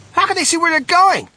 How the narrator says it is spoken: shrieked Violet Beauregard in the darkness

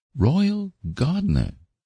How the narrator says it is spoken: exclaimed

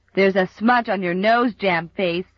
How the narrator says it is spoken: jeered Bill Palmer

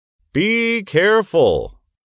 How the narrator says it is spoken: shouted the policeman to the little girl

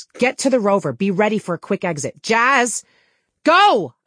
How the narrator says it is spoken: I snapped

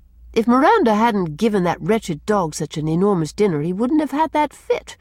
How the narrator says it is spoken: she said crossly

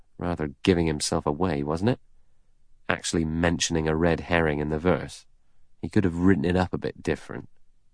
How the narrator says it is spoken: Blore murmured

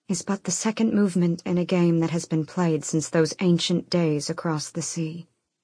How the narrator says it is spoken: she said quietly

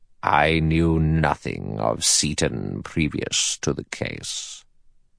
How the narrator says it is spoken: In a clear, cold voice, the judge said

